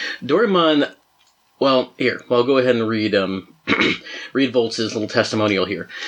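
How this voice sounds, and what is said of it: Usual voice. Nothing is said of it.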